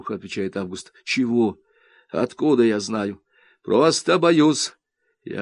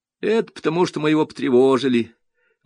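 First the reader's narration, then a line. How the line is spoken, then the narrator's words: Glum. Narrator (Russian): уныло говорит Ленка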